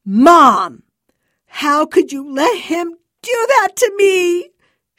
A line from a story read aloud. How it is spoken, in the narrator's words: She wailed